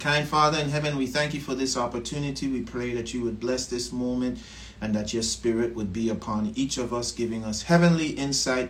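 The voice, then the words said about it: Slight Caribbean accent. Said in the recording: “I hear a little Caribbean accent in that prayer ... Did I hear a little Caribbean accent?”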